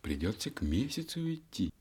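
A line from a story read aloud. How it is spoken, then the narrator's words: Sighing. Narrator (Russian): вздохнула ночь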